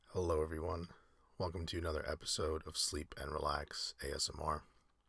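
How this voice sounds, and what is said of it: Slightly ill, under-the-weather voice. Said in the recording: “you may be able to tell from my voice, I'm feeling a little bit under the weather ... if you hear me a little different”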